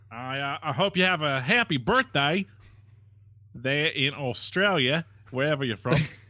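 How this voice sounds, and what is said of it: Put-on Australian accent. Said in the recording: “When you say it, you make this weird pyramid, or you're like upside down triangle with your face. ... I do things with my face to speak an Australian accent, apparently. ... We both did Australian.”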